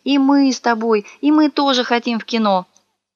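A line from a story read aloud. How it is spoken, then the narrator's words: Whining, whimpering children. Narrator (Russian): заныли, захныкали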